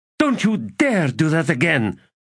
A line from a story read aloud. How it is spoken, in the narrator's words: Withal spat a second time